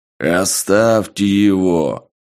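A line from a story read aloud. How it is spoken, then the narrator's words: Loud bass command. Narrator (Russian): громким басом приказал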